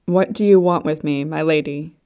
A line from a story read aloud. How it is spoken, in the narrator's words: he asked, his voice more controlled